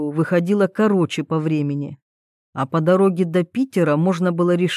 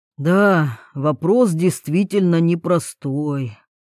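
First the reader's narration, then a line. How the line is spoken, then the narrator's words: Sighing. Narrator (Russian): вздохнул Потемкин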